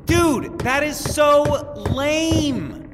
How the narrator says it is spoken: Randy yelled

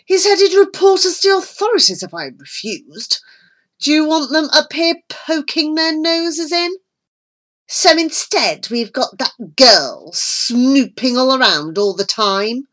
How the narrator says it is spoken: Millington snapped

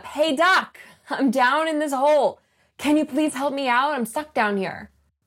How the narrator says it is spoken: the guy shouts up

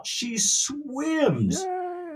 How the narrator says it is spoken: there's wild cheering as they all shout

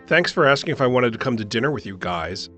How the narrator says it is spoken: she said angrily

